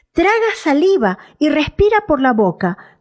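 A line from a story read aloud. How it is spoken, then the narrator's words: Shouted. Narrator (Spanish): gritó el señor Moorman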